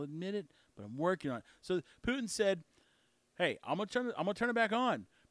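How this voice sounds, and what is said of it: Usual voice. Nothing is said of it.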